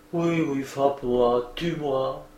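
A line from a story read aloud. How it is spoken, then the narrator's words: Murmured. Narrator (French): elle murmure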